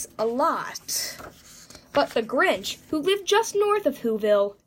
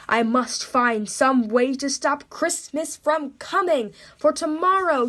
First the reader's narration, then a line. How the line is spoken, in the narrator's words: he growled